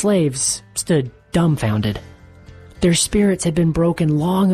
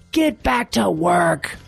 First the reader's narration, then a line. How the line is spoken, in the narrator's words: he screamed